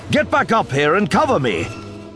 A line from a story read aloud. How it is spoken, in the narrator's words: shouted